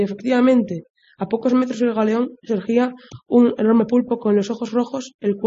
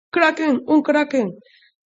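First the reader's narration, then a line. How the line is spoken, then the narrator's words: Exclamation. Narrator (Spanish): Craig exclamó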